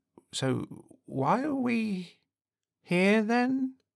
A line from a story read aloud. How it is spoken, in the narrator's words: He said, his voice quivering